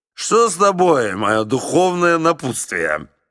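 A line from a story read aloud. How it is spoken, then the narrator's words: Drunken question. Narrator (Russian): Генерал Финк … пьяным голосом спросил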